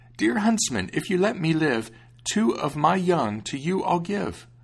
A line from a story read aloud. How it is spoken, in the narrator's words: the hare cried out